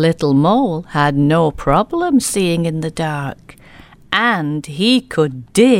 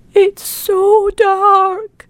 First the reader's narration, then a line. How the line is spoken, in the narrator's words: cried Little Squirrel